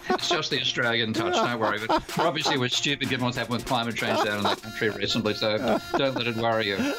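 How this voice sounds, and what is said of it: Australian accent. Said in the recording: “with a better Australian accent”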